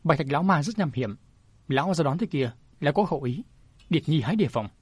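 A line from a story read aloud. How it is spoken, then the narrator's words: Smiling, said. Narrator (Vietnamese): Thánh thủ lang quân mỉm cười nói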